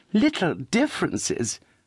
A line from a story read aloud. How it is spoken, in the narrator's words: cried Charity